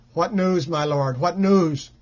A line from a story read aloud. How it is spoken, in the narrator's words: cried the guard